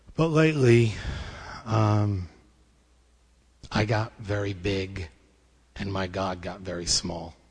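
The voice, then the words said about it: Choked-up emotional voice. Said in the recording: “I'm a little choked up”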